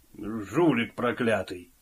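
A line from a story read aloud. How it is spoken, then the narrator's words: Grumbling. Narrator (Russian): проворчал Бигл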